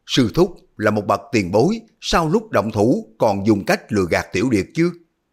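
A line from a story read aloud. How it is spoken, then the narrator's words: Frightened angry shout. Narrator (Vietnamese): Hư Trúc vừa kinh hãi vừa tức giận la lên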